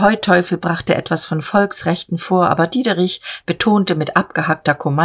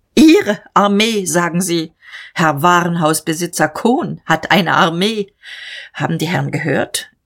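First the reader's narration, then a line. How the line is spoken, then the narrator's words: Lofty laugh. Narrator (German): Er lachte erhaben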